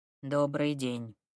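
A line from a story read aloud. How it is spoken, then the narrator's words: Muttered. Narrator (Russian): буркнул проректор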